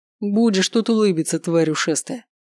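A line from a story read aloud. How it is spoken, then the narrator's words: Growl. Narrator (Russian): прорычал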